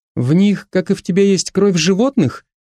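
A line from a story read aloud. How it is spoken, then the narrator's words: Innocent tone. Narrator (Russian): невинным тоном поинтересовалась Маша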